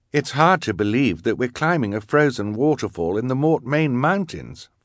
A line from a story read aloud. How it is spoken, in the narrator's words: Violet replied